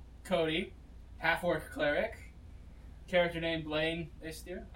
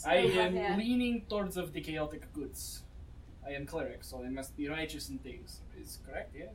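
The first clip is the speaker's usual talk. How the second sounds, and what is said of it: Put-on Russian accent. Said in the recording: “I think today I will be doing the Russian accent.”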